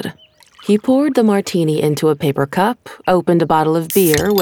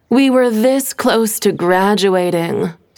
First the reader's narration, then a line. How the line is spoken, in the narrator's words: Stephanie groaned, still in shock